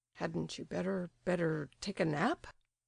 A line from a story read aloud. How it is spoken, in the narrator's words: murmured the stupefied Ptitsin